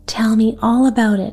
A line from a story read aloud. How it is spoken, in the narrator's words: Maida gasped